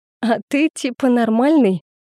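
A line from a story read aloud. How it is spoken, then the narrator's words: Laughing loudly. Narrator (Russian): расхохоталась я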